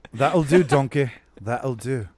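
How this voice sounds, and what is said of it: Scottish-accented character voice. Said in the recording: “Scottish accents”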